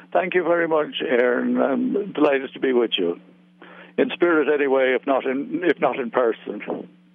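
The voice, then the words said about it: Irish accent. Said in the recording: “an Irish accent”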